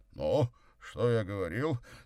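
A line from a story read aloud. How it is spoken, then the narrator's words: Delighted exclamation. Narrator (Russian): с восторгом воскликнул Горький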